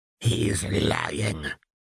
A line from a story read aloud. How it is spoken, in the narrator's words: Voldemort hissed